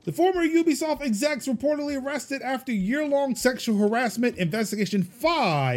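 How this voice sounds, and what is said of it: Usual voice. Nothing is said of it.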